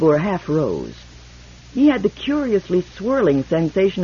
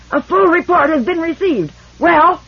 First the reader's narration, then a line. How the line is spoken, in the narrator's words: Indebor screamed